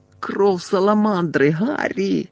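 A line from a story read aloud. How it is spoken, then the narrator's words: Groaning. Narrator (Ukrainian): застогнали Герміона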